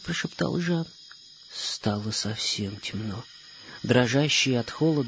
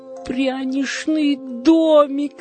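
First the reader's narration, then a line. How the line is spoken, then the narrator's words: Joyful exclamation. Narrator (Russian): радостно воскликнул он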